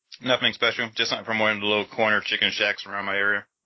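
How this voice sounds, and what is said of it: Muffled voice, talking with mouth full. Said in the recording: “I sound muffled,... it's because I currently have chicken in my mouth”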